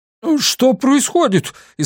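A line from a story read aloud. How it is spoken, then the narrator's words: Frightened shout. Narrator (Russian): испуганно крикнул он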